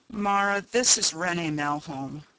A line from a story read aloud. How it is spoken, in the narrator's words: Ryanson said wearily